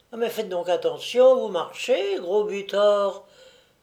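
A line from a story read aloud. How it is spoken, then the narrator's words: Young girl exclaiming. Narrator (French): s'écriait une jeune fille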